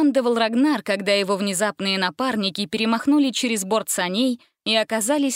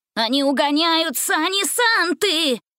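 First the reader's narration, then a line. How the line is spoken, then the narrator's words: Howled in chorus. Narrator (Russian): хором взвыли эльфы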